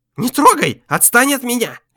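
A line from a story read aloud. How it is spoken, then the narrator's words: Shrill squealing. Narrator (Russian): визжал адвокат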